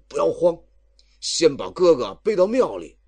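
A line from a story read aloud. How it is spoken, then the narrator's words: Big man calling out. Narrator (Chinese): 那黑大汉叫道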